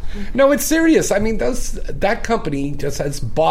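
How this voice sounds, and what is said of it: Usual voice. Nothing is said of it.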